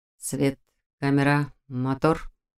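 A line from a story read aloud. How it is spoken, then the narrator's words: Muttered, young man. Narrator (Russian): Пробормотал молодой человек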